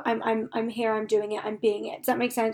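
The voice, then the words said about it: Calm, relaxed, peaceful voice. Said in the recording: “You can probably hear it in my voice. I'm just very calm, very at peace, very going with the flow.”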